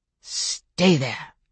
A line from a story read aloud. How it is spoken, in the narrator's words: Andre hissed